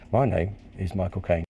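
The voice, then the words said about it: Michael Caine impression. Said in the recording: “this is the way he sounds to his many imitators”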